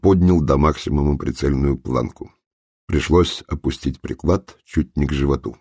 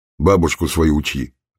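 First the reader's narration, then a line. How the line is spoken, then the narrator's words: Snapping retort, detective. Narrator (Russian): огрызнулся сыщик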